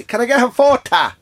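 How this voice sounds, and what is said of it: Ballina Irish accent. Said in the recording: “in pure Ballina accent.”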